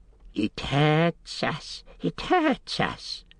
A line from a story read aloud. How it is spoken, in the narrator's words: hissed Gollum